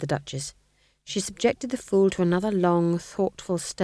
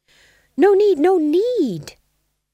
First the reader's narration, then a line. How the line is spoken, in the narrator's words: said the Fool desperately